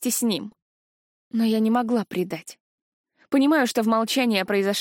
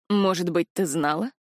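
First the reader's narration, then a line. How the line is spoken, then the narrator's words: Plain. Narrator (Russian): спросил Варлиш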